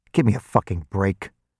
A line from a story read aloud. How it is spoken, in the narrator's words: I snarled